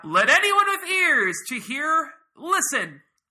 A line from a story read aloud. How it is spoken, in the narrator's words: As he said this, he called out